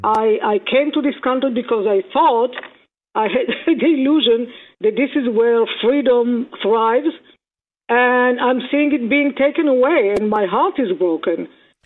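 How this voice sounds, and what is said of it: Speaks with a foreign accent. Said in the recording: “as you can hear, I have an accent”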